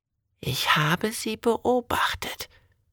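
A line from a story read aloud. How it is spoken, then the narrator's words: Old lady whispering. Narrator (German): flüstert die alte Dame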